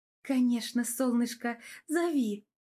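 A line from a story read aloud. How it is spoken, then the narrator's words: Affectionate, tender. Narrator (Russian): Ласково проговорила я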